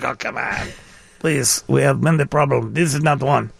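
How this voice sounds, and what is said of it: Put-on Russian accent. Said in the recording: “that was a Russian accent.”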